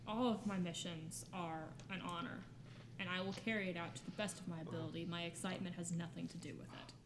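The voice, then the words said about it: Flat deadpan delivery. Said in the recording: “I'm deadpanning. There is no emotion on my face.”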